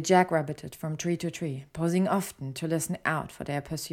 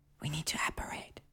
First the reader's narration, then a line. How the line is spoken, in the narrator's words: whispered